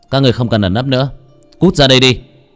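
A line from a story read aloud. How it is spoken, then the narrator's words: Cold loud shout. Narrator (Vietnamese): Lô Tiểu Bắc lạnh lùng quát to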